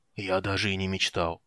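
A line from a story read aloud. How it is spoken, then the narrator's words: Muttered, hoarse with emotion. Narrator (Russian): пробормотал Флинт хриплым от волнения голосом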